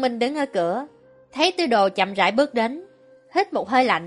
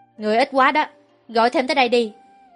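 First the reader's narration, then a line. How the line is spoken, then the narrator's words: Cold. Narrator (Vietnamese): lạnh lùng thốt lời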